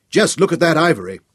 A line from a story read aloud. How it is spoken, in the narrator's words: Thanos shouted